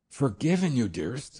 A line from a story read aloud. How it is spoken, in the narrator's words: I exclaimed